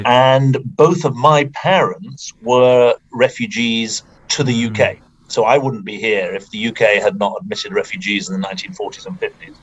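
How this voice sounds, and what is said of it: British accent. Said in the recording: “given my accent ... I'm from the UK, obviously.”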